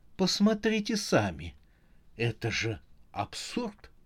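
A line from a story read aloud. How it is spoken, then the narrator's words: Plain. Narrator (Russian): сказала она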